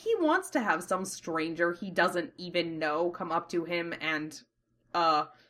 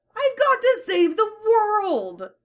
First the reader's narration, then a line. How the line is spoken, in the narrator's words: yelps defensively